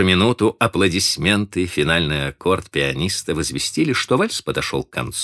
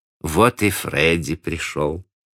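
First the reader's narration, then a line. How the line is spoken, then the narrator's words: Calm. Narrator (Russian): спокойно сообщила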